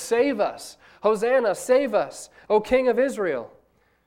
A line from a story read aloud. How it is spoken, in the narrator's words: the people called out to Jesus